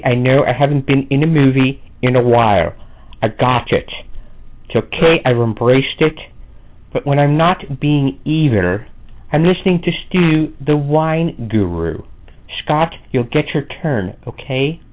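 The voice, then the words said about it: Celebrity impersonator voice. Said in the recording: “No actual celebrities were used in the making of this promo, just celebrity impersonators.”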